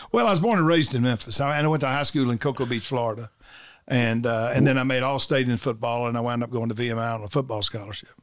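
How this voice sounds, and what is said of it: Southern accent, light drawl. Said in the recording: “is there a Virginia accent? ... not much different than any other Southern accent. It's probably less of a drawl”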